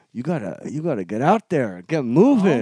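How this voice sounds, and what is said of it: Put-on foreign accent. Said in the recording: “the guy also had an accent, a very similar accent”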